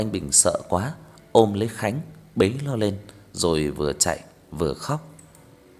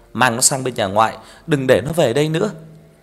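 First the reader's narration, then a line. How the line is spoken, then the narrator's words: Loud shout. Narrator (Vietnamese): Bà quát lớn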